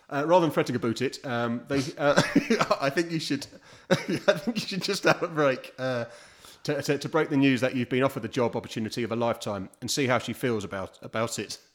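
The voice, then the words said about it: Put-on Canadian accent. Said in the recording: “she's actually written this in a Canadian accent. ... I want you to carry on in that. That's ridiculous. What accent was that? ... They say a boot, don't they?”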